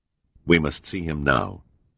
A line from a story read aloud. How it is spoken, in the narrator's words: Seagram said firmly